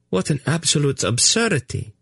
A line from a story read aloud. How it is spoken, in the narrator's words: she exclaimed